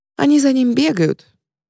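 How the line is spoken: Thin trembling voice. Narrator (Russian): соглашается Мако тонким дрожащим голоском

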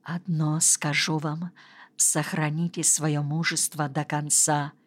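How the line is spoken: Hurried whisper. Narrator (Russian): Врач торопливо прошептал

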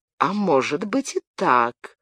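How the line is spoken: Thoughtful drawl. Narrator (Russian): задумчиво протянул герцог

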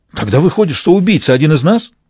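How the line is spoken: Agitated question. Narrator (Russian): взволнованно спросил

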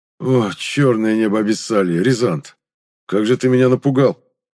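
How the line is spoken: Relieved exhale. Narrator (Russian): Облегченно выдохнул Гайнар

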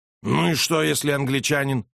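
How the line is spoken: Snapping back. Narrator (Russian): огрызнулся он

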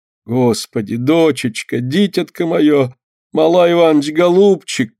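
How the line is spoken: Moaning, distressed. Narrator (Russian): простонала Лина

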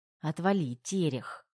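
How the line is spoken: Grumbling retort. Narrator (Russian): ворчала Тома в ответ на такие вспышки мужчины

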